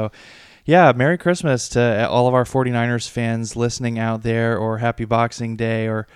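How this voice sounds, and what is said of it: Usual voice. Nothing is said of it.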